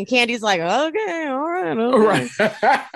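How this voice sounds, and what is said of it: Imitates another person's voice, mouth barely open. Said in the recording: “That was a great Candy impersonation, by the way... You nailed it... You just like don't open your mouth that much.”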